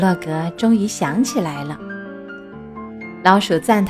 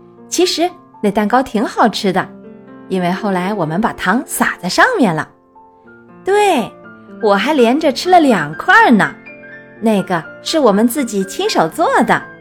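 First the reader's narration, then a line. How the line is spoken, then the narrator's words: Laughing. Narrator (Chinese): 老鼠笑着说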